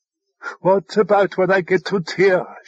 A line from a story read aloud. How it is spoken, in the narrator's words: she cried